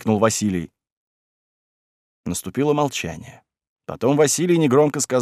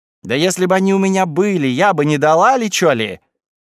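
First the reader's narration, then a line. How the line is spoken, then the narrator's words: Shouting. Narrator (Russian): Галька закричала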